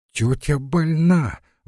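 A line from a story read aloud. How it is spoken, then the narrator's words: Exclaimed. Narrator (Russian): воскликнула Лариса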